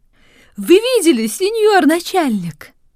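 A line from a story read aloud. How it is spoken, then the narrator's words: Exclaimed. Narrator (Russian): воскликнула Анджела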